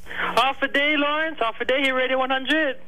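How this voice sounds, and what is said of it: Polished radio announcer voice. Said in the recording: “I like ... radio voice. He doesn't talk like that every day.”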